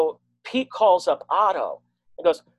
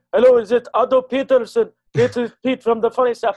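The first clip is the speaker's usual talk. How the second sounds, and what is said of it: Thick Lebanese accent, hard to understand. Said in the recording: “who's a Lebanese guy that you can barely understand ... has this thick accent, and you can barely tell what he says”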